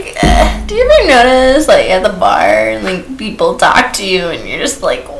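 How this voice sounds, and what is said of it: Usual voice. Nothing is said of it.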